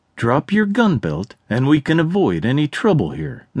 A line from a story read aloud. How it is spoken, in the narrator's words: Natalie stated firmly yet calmly to Jack